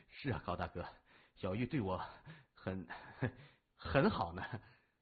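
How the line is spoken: Sighing, smiling through pain. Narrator (Chinese): 谢文东叹了口气，忍着手臂上的疼痛，笑着点头说

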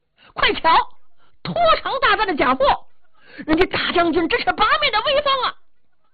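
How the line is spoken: Shouting. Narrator (Chinese): 也不知道谁喊了这么一句

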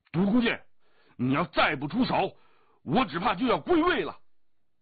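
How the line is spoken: Loud shout. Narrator (Chinese): 降龙大声叫道

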